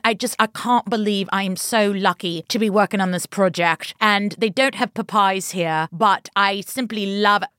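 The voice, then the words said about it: Put-on British English accent. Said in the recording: “she has an English accent ... She fully talks with a British accent all the time”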